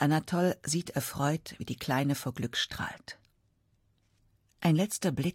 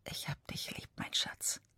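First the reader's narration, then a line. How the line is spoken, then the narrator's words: Whispered. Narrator (German): Er flüstert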